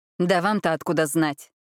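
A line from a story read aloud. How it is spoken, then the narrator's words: Irritated interruption. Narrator (Russian): раздраженно перебил поверенного Адольфа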